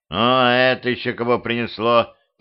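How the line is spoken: Grumbling. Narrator (Russian): проворчал я

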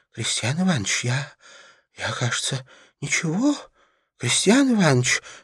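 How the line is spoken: Timid, trembling, pleading. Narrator (Russian): начал было робко и трепеща наш герой, желая хоть сколько-нибудь покорностью и смирением умилосердить ужасного Крестьяна Иваныча

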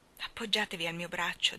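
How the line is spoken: Pleading tone. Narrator (Italian): disse Steven in tono di preghiera

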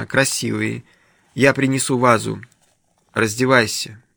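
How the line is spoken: Soft. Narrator (Russian): мягко произносит он

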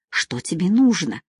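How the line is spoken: Frightened whisper. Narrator (Russian): прошептала испуганно

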